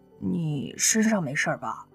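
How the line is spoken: Quiet question. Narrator (Chinese): 刘亚楠小声问了一句

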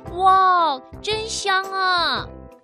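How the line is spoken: Excited group shout. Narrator (Chinese): 他们叫起来

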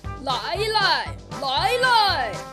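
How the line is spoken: Loud shouting. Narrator (Chinese): 那个声音大叫着

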